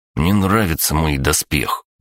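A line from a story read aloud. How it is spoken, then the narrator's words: Grumbled. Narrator (Russian): проворчал Егор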